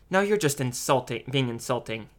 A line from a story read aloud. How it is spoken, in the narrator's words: his mother snapped